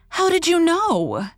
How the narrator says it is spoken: cried

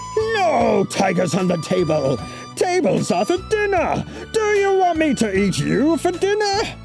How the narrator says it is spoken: Chen roared

